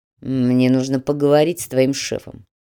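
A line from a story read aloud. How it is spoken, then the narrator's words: Muttered. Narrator (Russian): буркнул Фадеев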